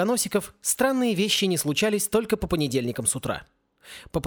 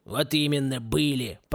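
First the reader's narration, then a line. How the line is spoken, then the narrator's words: Gloomy grumble. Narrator (Russian): проворчал отец семейства, мрачно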